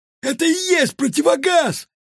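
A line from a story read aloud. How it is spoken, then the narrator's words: Ecstatic yell. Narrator (Russian): восторженно завопил рыбий глаз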